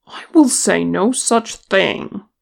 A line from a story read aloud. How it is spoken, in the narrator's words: he said indignantly